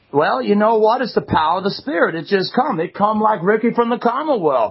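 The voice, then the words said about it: Southern drawl, Foghorn Leghorn-like. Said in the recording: “Do you have a southern accent now? ... yeah, you got kind of a foghorn, leghorn thing going on.”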